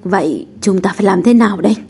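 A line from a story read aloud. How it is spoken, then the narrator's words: Startled hiss through teeth. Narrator (Vietnamese): Tóc Doãn giật mình, hồi lâu mới rít từng tiếng qua kẽ răng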